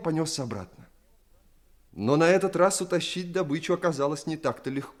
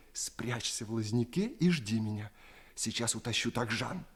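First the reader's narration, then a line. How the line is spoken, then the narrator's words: Whispered while running. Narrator (Russian): на бегу шепнул ему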